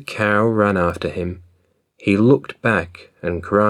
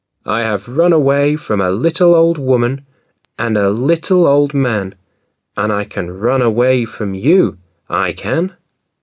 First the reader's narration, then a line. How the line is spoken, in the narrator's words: The little gingerbread boy laughed and said